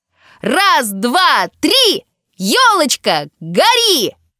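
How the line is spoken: Shouted in chorus. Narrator (Russian): Хором прокричали Павлик, Таня и мама

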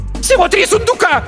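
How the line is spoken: Shrill squeal. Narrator (Russian): взвизгнула Беатриса

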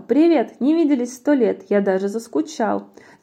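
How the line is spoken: Plain. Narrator (Russian): Змея сказала

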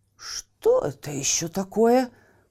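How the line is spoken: Exclamation. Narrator (Russian): воскликнул портной

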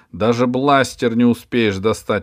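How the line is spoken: Shouting. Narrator (Russian): Алиса крикнула

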